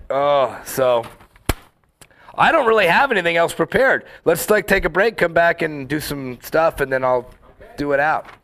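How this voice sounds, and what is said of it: Sick, fading hoarse voice. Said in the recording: “I'm sick. I'm losing my voice.”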